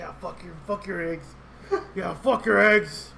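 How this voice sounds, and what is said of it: Dark, deep vigilante voice. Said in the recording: “that dark, deep voice”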